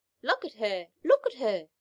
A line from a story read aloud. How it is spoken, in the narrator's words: cried her little ones